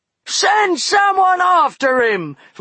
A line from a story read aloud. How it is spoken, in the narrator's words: roared Buster